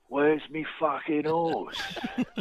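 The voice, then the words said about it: British gangster voice like Ray Winstone. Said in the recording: “I think it's more Ray Winston than... one of those British gangsters”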